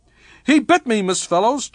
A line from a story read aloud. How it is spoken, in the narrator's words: Jerry cried in rage